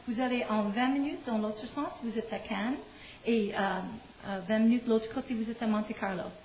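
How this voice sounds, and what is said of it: Québécois French accent. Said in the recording (French): “accent québécois, les gens trouvent c'est fabuleux ... les Français aiment l'accent québécois”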